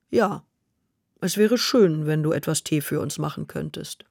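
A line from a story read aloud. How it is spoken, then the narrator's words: Calm. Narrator (German): sagte ruhig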